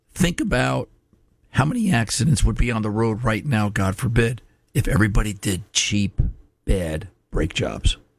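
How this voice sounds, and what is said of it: Hoarse, weakened voice. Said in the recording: “lost my voice”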